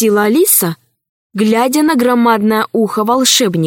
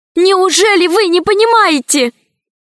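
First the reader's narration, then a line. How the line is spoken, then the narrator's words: Almost shouting. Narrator (Russian): почти закричала Алиса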